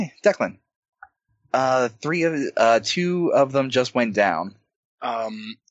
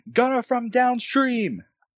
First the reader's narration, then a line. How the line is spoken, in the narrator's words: the captain shout out